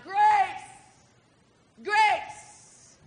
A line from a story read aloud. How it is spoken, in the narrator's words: he shouted